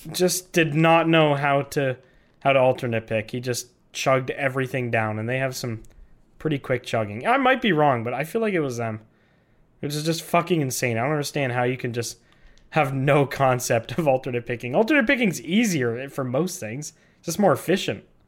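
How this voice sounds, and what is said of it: Sick, rough-sounding voice. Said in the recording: “I'm still a little bit sick, so my voice is fucked.”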